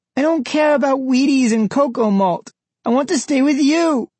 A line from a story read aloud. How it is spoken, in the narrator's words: Frankie sobbed into Mike's arm